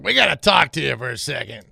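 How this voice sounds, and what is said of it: Bad Sonny Crockett impression. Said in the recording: “my very bad Sonny Crockett impression ... That's pretty bad”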